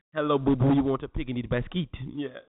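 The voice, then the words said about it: Cartoon bear voice, French accent. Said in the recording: “Why is your yogi French? He got a French accent.”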